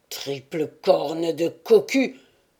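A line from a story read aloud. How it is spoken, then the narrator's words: Hoarse growl. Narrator (French): grogna une voix rauque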